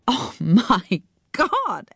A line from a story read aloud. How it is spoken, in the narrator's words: Anne laughed